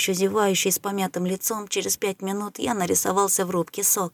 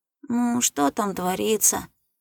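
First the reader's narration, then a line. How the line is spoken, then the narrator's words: Sleepy question. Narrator (Russian): спросил сонно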